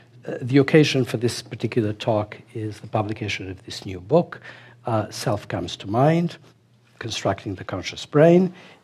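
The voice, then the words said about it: Hoarse voice from laryngitis. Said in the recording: “For my voice, I have a very bad laryngitis”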